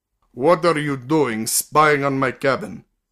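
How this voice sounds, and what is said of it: Faint Russian accent, slow speech. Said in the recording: “He spoke English with only a faint Russian accent, and slowly, as if he considered each word before dropping it.”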